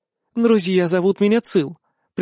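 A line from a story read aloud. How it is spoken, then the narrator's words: Soft flirtatious admission. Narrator (Russian): признается мягко и с кокетством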